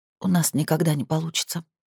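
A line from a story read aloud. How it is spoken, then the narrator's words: Barely audible whisper. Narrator (Russian): прошептала она еле слышно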